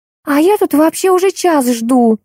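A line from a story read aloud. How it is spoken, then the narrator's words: Shrill squeal. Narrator (Russian): взвизгнули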